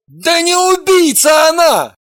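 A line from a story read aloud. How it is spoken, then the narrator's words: Shout. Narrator (Russian): крикнул Евгений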